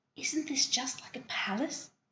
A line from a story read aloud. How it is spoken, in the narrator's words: whispered Diana